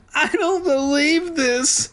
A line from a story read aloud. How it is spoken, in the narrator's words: Sheena wailed